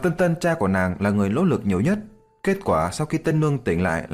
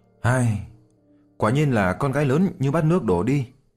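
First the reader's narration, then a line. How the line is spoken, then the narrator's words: Sighing. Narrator (Vietnamese): Diệp Chi Thu thở dài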